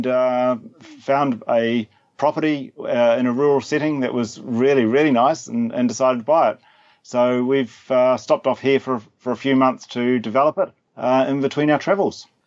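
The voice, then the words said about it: New Zealand accent. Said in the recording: “I'm a Kiwi, born and born and, born and bred... that's the accent that gives me away.”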